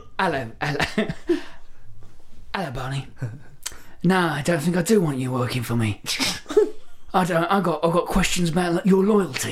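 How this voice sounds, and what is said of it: Danny Dyer impression. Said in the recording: “you guys are good at the impression, so I was like, I want to hear Danny Dyer.”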